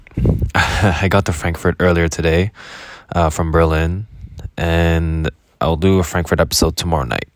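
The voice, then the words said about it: Speaking quietly, voice kept low. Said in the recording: “my voice is a little low because I'm actually renting a room right now”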